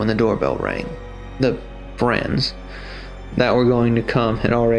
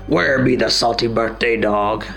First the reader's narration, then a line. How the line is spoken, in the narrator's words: the captain growled